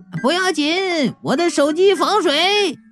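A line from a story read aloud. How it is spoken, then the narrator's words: Smug shout. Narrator (Chinese): 这人得意洋洋的 喊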